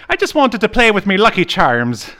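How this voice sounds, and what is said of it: Put-on Irish accent. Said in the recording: “I can't do an Irish accent ... I'm Irish. I'm allowed to make fun of Irish.”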